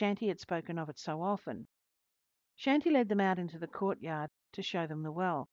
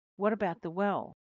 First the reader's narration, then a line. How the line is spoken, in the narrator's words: Neki Ram Sharma exclaimed